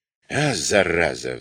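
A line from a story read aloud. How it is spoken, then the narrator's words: Sighing. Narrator (Russian): вздохнул Басик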